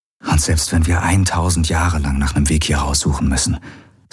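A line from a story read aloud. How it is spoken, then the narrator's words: Gentle. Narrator (German): sagte er sanft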